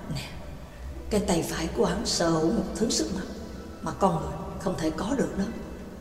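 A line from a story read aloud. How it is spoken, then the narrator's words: Soft, close whisper. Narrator (Vietnamese): Pháp sư Á-la ghé sát vào tay Lữ Cánh Nam khẽ nói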